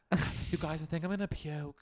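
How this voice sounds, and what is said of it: Imitation of Meredith rather than Lisa. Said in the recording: “That was more Meredith than Lisa.”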